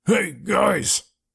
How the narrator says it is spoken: he shouted

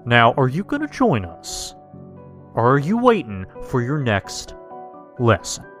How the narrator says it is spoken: Uncle Joey asked

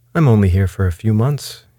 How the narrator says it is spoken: he said

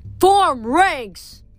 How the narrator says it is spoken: the centurion shouted

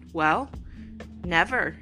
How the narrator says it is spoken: he said

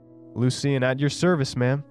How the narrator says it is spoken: called out, grinning

